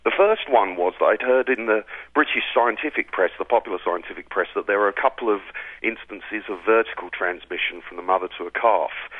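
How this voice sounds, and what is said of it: British accent. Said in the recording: “I can hear from your accent that you're from Britain.”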